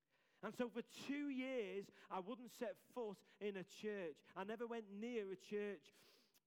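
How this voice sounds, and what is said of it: Scouse accent. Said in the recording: “I just chat with him, like in my Scouse accent and stuff”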